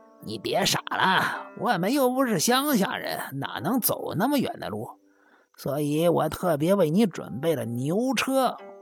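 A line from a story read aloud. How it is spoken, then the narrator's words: Smiling voice. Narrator (Chinese): 仙石直纪 笑着说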